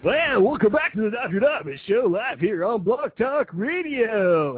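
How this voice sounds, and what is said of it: Exaggerated radio announcer voice. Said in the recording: “that's the annoying radio voice”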